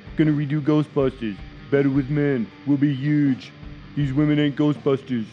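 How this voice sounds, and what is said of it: Donald Trump impression. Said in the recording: “I totally did the Trump voice on that... I tried my best”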